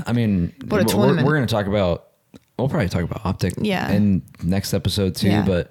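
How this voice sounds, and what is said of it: Strained, failing voice. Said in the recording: “I'm so sorry about my voice, people. I'm sorry. ... it's just going more”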